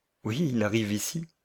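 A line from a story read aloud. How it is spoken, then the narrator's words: Said with strained smile. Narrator (French): dit le cousin Henry, s'efforçant faiblement de sourire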